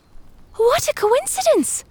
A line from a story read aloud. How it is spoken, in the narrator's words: cried again